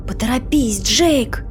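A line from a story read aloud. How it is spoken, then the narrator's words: Whispered. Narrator (Russian): прошептала Сюзанна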